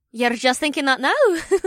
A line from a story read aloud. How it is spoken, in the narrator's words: Gemma giggled